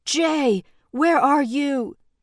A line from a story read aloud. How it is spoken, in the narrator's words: called loudly over the rush of blood in her ears, the violent drone of the helicopter terrifyingly close behind them